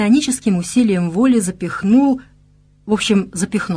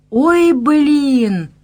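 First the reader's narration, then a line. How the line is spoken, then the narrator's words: Girl wailing. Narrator (Russian): взвыла девушка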